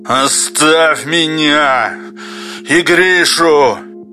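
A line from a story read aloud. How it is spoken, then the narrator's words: Angry hoarse rasp. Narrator (Russian): Злобно хрипит Юрковский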